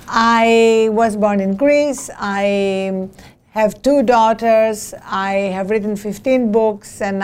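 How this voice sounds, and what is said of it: Non-native English accent. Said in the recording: “As you can hear from my accent, I was not born in this country”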